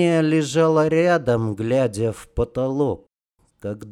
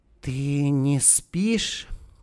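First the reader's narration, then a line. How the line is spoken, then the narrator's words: Barely audible question. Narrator (Russian): спросила женщина еле слышно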